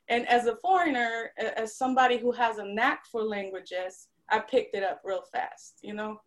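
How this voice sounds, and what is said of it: Slight Polish lilt, Southern tinge. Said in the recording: “It's Southerners all coming out now. ... you can tell that little Polish lilt”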